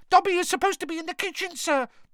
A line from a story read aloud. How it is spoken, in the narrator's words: Dobby squealed